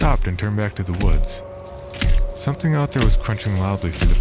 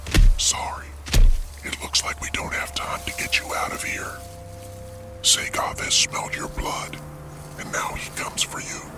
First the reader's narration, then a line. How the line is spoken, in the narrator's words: The Samoan figure whispered